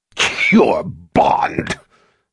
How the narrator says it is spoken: Jigang roared with laughter again

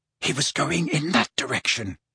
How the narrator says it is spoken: murmured Harry, as quietly as possible, so that the humming Hagrid would not hear them

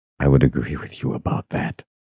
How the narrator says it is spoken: Richard whispered

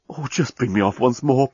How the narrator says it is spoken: pleaded the journalist

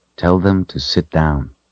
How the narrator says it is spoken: he said in a quiet voice

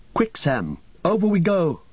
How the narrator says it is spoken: cried Frodo

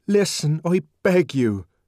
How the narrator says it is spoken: cried the savage earnestly

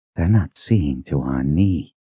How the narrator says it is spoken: whispered

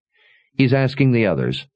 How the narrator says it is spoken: Sebastian sighed in annoyance

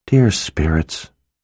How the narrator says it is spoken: she murmured

